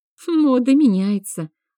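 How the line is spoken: Wry snort. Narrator (Russian): хмыкнула Алексия

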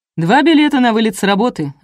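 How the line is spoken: Yelling. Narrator (Russian): орал Тимофей

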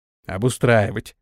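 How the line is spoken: Inner grumble. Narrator (Russian): мысленно проворчал Антон

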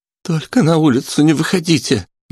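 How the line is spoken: Pleading aunt. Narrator (Russian): взмолилась тетушка

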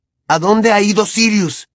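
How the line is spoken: Shouting. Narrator (Spanish): le gritó Harry

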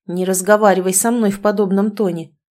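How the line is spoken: Stern interruption. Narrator (Russian): Строго перебил ее Игорь таким голосом

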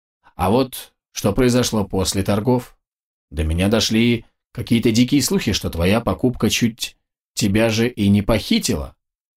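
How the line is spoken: Even tone. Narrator (Russian): ровным тоном произнес Абрахам

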